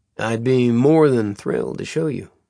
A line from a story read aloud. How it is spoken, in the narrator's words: Caleb said in his deepest drawl